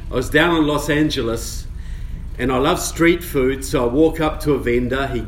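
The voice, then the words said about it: New Zealand accent. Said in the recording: “you have an accent. Where are you from? I said, well, I'm from New Zealand.”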